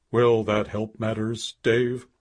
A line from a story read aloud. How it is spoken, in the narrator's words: said wearily